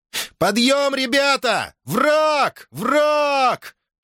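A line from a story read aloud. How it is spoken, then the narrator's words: Shouting. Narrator (Russian): крикнул Плистоанакс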